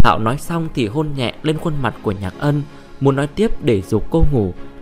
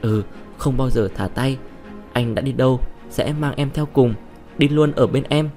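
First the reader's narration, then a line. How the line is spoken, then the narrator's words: Laughing, tender whisper. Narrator (Vietnamese): Diệp Hạo bật cười, thì thầm với cô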